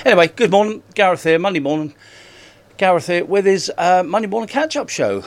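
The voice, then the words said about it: Out of breath. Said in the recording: “out of breath? ... I've only got 17 seconds to get up them stairs. That's why I'm out of breath.”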